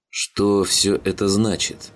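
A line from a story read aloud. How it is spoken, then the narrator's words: Hoarse question. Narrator (Russian): хрипло спросил Макферсон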